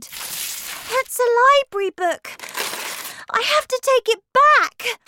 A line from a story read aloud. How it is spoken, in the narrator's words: Matilda cried